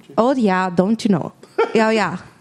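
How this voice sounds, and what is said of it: Put-on Minnesota accent. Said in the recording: “Can I hear your Minnesota accent? ... I don't know if that was a good one.”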